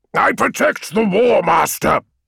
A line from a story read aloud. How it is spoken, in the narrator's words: boomed Kyber